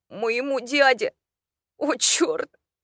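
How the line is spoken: Piercing startled cry. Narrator (Russian): Он так вскрикнул, что меня пробрало до костей

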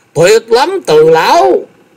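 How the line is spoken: Excited cheering exclamation. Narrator (Vietnamese): Thái Anh tinh thần vô cùng phấn chấn, vỗ tay kêu lên

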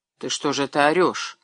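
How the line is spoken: Whispered scolding. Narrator (Russian): Шепотом обругал его Кузнецов

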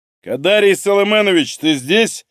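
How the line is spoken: Loud question. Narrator (Russian): громко спросил

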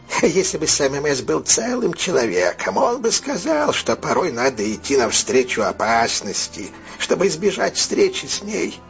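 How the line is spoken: Laughing, then speaking. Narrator (Russian): сам мэс рассмеялся, потом сказал

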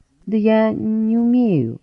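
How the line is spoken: Uncertain. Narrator (Russian): неуверенно ответил тот

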